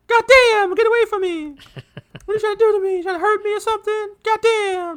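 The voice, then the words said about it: Imitates another person's voice, shouting. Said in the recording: “Bruce Pritchard's kind of impersonation of him”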